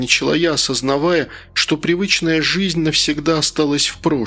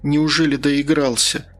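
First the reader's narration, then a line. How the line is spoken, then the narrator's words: Sighing. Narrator (Russian): вздохнула я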